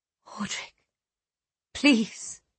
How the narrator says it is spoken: Shaking, she said desperately

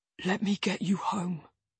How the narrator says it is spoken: he whispers

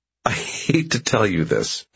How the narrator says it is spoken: Ellie says, laughing

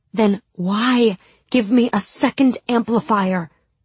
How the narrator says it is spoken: I asked desperately

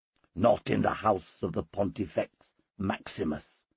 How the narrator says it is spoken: I hissed

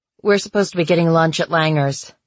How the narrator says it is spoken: Hazel said

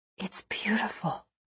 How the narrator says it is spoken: I whispered

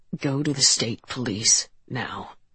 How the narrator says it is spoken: he said

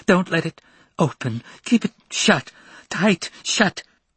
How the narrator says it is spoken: Gasping for breath as if she had run a long way, the girl said

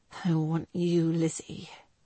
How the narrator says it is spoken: he whispered huskily against her ear

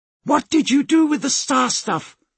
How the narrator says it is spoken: she shouted

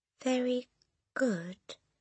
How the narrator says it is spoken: the boy mumbled

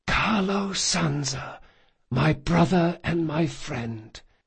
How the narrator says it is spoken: in an impossibly calm voice he whispered

